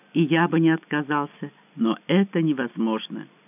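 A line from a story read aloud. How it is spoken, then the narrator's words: Quiet voice. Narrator (Russian): тихо произнес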